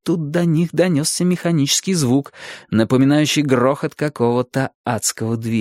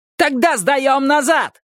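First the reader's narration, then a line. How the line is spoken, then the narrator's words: Yelled. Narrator (Russian): завопил Джикс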